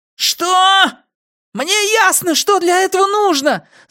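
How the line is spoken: Loud terrified yell. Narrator (Russian): заорал мышь как можно громче, уверенный, что Пузан собирается вышибить ему мозги

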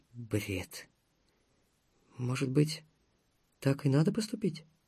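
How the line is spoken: Girl speaking quietly. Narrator (Russian): тихо проговорила девушка

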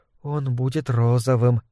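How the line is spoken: Whisper to herself. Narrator (Russian): прошептала сама себе Вик

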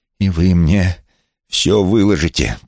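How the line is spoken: Words through clenched teeth. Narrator (Russian): процедил он сквозь зубы

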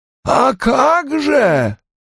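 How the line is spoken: Hoarse rasp. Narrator (Russian): прохрипела Бетти

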